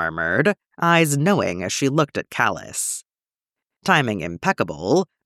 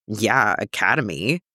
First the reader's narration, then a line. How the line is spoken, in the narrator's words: Sabine snorted